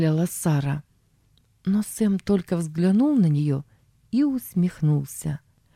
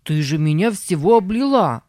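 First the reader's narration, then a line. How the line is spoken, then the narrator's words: Shout. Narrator (Russian): закричал он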